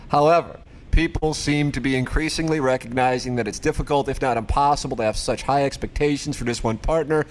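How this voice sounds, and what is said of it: Put-on Northeastern US accent. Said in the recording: “What's that accent you're doing? ... I decided to do a little of the Northeast, like I was on Martha's Vineyard.”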